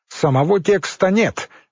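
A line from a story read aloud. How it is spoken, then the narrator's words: Sharp curt remark. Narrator (Russian): резко бросила Елизавета Михайловна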